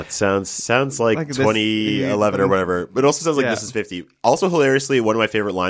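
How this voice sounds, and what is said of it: Usual voice. Nothing is said of it.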